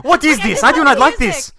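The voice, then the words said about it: Put-on French accent. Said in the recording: “Is that a French accent?”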